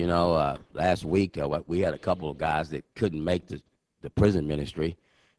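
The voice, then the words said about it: Deep, strained voice from a cold. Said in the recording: “I'm about to lose my voice. I already woke up with a sore throat and got a little bit of a cold ... I don't like that deep voice”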